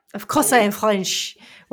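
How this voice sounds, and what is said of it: Exaggerated put-on French accent. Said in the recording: “Why else am I speaking in this outrageous accent? ... it's very good. very good.”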